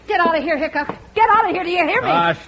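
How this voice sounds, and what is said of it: Yelling. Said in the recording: “Stop yelling”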